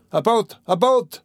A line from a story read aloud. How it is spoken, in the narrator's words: was shouted in the crowd